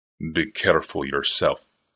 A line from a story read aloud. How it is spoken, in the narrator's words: said to the unresponsive darkness